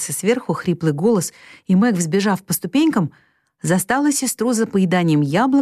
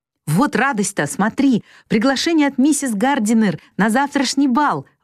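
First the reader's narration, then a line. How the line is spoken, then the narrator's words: Excited exclamation. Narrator (Russian): воскликнула Мэг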